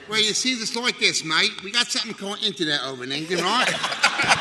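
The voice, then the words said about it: New York accent. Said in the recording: “You hear this accent? ... Bugs Bunny, Barbara Streisand, James Cagney, New York.”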